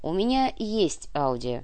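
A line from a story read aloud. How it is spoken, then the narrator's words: Slow speech. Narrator (Russian): медленно произнес Куприянов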